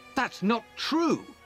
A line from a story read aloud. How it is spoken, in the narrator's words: I cried